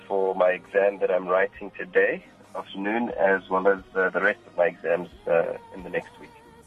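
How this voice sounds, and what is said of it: Rich radio-style voice. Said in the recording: “who's this person with the radio voice?”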